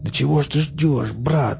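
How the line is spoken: Hoarse, coughing man. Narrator (Russian): мужик хрипло закашлялся

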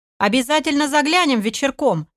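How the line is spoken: Cheerful shout. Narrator (Russian): весело выкрикнул аналитик

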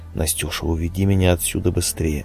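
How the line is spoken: Whispering close in ear. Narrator (Russian): стал шептать ей в самое ухо

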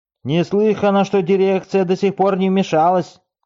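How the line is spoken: Shouting. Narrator (Russian): кричали из соседней ложи

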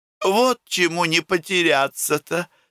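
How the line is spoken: Laughing. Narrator (Russian): смеялась Нюша

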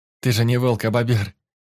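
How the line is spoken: Giggling girl. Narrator (Russian): хихикнула подружка

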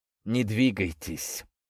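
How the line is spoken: Sepulchral warning voice. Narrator (Russian): загробным голосом предупредил

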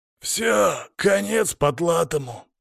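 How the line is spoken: Hoarse voice. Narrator (Russian): хриплый голос

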